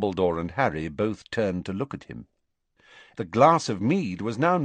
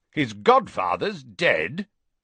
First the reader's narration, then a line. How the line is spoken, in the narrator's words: said Uncle Vernon loudly from the sofa